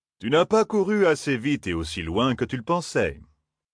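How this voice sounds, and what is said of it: Character voice with strange accent. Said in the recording (French): “L'homme avait un étrange accent, du moins selon l'oreille de Matt.”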